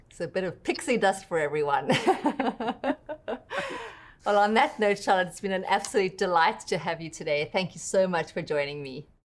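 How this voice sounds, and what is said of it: South African accent. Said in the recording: “I love that accent, that South African accent.”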